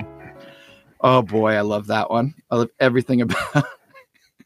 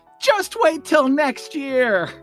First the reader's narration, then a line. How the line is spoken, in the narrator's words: Linus yells